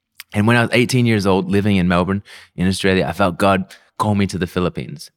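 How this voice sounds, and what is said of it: Mixed Australian and Filipino accent. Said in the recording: “I know that I sound so Filipino, but I was born and raised in Melbourne, Australia ... this confused, messed up, weird accent”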